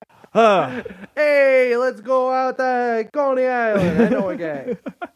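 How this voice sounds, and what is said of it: Put-on Italian-American accent. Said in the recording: “I like that your Italian accent.”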